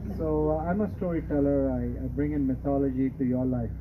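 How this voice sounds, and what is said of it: Speaks with a noticeable accent. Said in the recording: “you'll be used to my accent by the time I'm finished”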